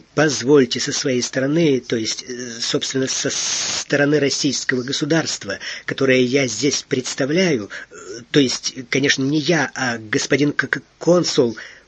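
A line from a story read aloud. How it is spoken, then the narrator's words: Nervous rambling stammer. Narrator (Russian): понес невнятицу Эраст Петрович, волнуясь и оттого заикаясь больше обычного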